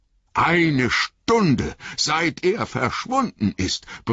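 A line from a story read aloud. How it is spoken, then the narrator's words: Bellowing. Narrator (German): brüllte Sam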